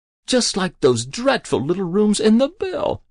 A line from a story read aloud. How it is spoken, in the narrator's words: she said excitedly